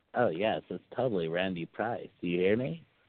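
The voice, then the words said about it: Bad impression of Randy Price. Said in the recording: “a really bad Randy Price impression”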